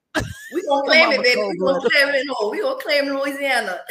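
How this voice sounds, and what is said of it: Put-on Louisiana accent. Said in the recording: “It's just a little fake accent I put on.”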